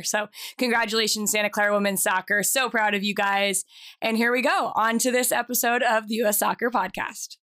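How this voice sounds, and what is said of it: Strained, hoarse voice that may crack. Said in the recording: “my voice might crack a little bit because ... you probably saw me screaming my head off ... apologize for my voice”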